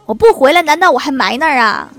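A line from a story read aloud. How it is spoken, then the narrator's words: Old man speaking loudly. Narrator (Chinese): 大爷大声地说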